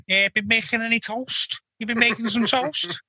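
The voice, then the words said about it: Thick Scouse accent. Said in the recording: “In his thick Scouse accent.”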